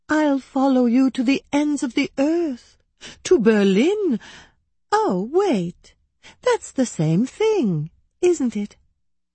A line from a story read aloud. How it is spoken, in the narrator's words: she cooed